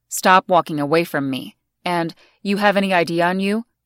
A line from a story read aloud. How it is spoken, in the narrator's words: in a threatening tone